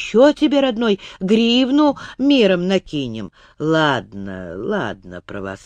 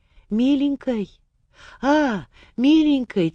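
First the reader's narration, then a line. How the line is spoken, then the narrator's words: Quiet address. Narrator (Russian): тихо обратилось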